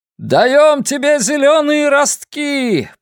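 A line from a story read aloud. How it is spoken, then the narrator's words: Crowd roaring back. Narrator (Russian): проревели в ответ жители Калии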